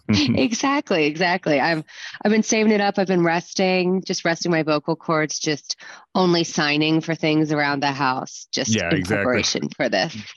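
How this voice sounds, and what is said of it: Hoarse, worn-out voice. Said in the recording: “my voice is a little shot”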